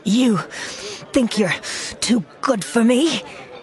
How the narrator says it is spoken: sputtered, with a shaking hand

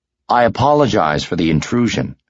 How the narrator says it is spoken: Luke said

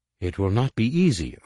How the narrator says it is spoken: N'Gala announced evenly, disguising the voice of her heart

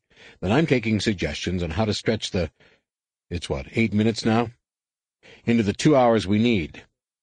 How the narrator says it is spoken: Card said cheerfully

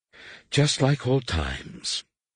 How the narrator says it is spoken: Leia sighed

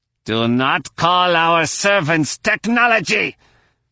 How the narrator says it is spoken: he growled

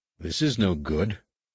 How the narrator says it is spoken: Anakin muttered

